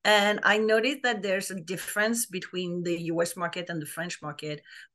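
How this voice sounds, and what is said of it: French accent. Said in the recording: “I'm French, like people will probably notice my accent”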